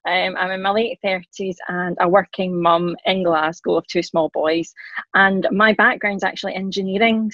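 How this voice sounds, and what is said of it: Scottish accent. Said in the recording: “I am Scottish, hence the accent.”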